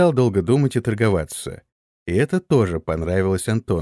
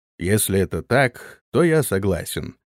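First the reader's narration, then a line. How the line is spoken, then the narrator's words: Calm warrior. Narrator (Russian): спокойно ответил воин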